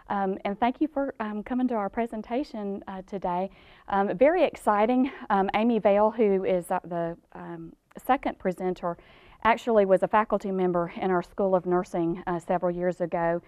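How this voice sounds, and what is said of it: Georgia Southern US accent. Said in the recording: “they can detect my Georgia accent.”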